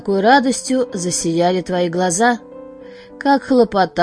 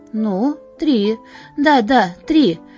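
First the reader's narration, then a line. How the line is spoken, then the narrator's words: Joyful. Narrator (Russian): подхватывал радостно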